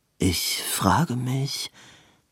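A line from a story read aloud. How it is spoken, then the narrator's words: Murmured. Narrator (German): murmelte Edwin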